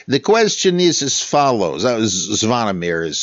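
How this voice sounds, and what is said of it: Usual voice. Nothing is said of it.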